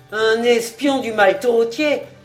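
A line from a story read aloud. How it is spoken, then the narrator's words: Wolves crying in chorus. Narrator (French): s'écrièrent en cœur les loups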